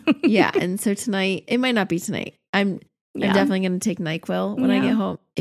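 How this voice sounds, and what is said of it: Husky, sick-sounding voice. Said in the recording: “If you're noticing the sexy voice, it's because my kids got me again.”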